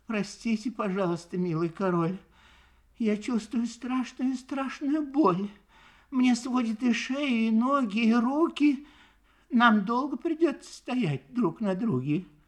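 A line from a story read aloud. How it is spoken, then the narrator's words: Sad, sorrowful, quiet, polite turtle. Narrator (Russian): Вздохнула печально и горестно так одна черепашка по имени Мак, тихо и вежливо произнесла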